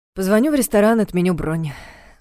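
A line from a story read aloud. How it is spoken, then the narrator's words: Sighing. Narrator (Russian): вздохнул Влад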